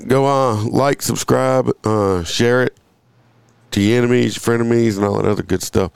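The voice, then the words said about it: Scratchy voice. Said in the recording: “I apologize for my voice. ... I'm out sick. This is the remnants of it. ... excuse the scratchiness of my voice.”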